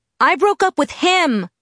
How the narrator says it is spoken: I shouted back

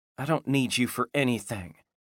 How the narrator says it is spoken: Michelle mumbled

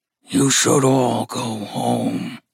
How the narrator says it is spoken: growled Gus, tinging his words with horror magic

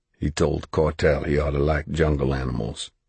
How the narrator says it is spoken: Jackson said quietly

